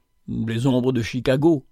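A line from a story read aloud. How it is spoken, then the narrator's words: Murmured. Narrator (French): murmura Félicia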